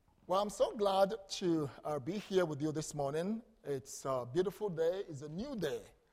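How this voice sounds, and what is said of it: Ghanaian English accent. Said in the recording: “back home in Ghana, where I come from, just as you enjoy my beautiful accent”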